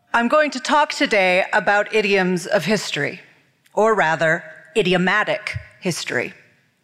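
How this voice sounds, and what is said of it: American accent. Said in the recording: “I'm an American who lives in London, and I'm very accustomed to having my accent mocked all of the time ... in my accent”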